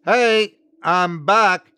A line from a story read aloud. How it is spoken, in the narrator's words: I called out